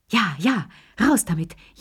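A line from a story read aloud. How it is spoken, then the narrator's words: Old people gasping. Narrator (German): japsten die drei Alten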